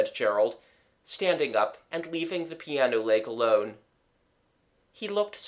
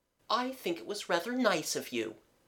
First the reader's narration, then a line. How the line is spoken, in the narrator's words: said Mabel kindly